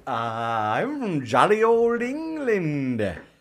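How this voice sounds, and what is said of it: Exaggerated bad British accent. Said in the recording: “That batshit dog crap accent”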